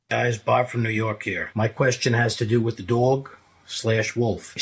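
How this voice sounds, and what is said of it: New York accent, tough-guy sound. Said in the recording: “I'm from New York, and I can just tell you from the East Coast, and I love your accent... you sound like, you know, you're a tough guy”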